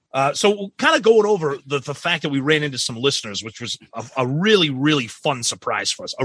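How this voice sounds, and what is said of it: Boston accent. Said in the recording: “it must be the Boston accent”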